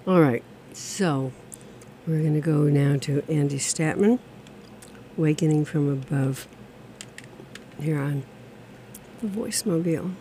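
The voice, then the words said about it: Hoarse, failing voice. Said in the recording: “I seem to be losing my voice”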